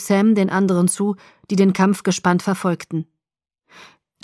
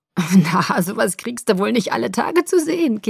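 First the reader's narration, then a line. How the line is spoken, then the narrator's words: Giggling. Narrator (German): kicherte er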